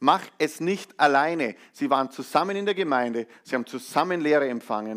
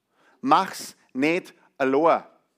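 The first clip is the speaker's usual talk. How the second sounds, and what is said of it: Put-on Bavarian dialect. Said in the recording (German): “auf Bayerisch”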